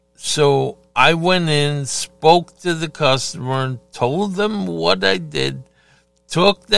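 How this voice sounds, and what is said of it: Usual voice. Nothing is said of it.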